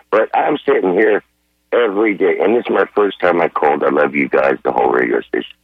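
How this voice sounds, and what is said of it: Hoarse, weak voice. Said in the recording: “I lost my voice”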